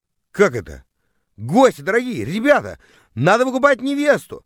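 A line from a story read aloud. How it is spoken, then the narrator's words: Yelling. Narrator (Russian): завопил я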